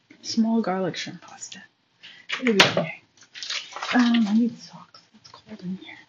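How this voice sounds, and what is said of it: Whispering. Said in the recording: “Sorry, I've been whispering.”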